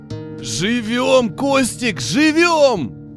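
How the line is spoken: Yelling. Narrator (Russian): орал тот

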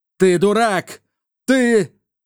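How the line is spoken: Terrified shout. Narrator (Russian): в ужасе закричал костюм

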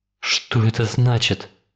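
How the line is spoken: Whisper. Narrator (Russian): прошептал он

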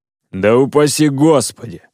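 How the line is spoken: Laughing joke over phone. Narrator (Russian): рассмеялся на другом конце провода Котовский, поспешивший свернуть все на шутку

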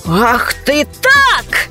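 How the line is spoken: Shouted. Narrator (Russian): закричал он

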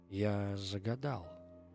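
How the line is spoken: Quiet. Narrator (Russian): сказал он тихо

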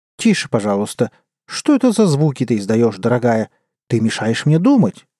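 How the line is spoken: Grumpy grumbling. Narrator (Russian): брюзгливо проворчал король

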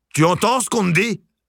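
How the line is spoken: Barking, harsh. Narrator (French): aboya Sylvia

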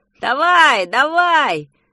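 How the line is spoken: Shouted. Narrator (Russian): закричал Петя

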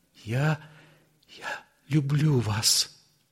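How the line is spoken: Smiling through tears. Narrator (Russian): улыбнулась ему сквозь слезы и проговорила

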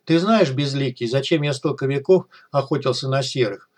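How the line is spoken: Sad old man. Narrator (Russian): Старик грустно улыбнулся в усы

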